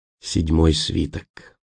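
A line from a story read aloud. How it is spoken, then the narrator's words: Whispered with awe. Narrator (Russian): прошептал Роэн, и не без трепета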